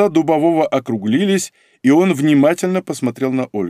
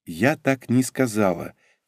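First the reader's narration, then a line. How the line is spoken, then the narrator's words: Quiet. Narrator (Russian): тихо проговорила Ольга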